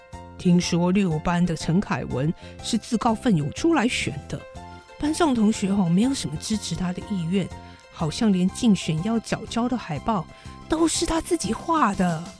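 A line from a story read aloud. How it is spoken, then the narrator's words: Suddenly lowered voice. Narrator (Chinese): 班长忽然压低音量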